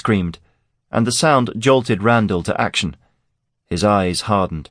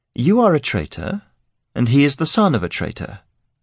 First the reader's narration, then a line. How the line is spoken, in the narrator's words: Clisson said coldly